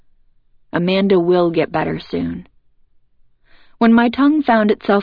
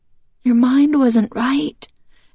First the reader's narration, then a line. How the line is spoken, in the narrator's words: Emily pleaded with me